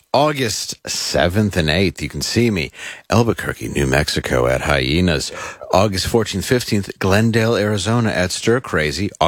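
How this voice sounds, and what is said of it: Smooth radio announcer voice. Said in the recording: “I just like how you get smooth when you do these ... I read it in my very radio voice”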